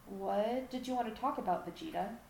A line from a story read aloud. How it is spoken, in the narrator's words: Gohan asked in a wary voice